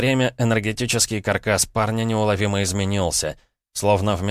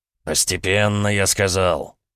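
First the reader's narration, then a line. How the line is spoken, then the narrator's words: Irritated hiss. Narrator (Russian): раздраженно шикнул Волков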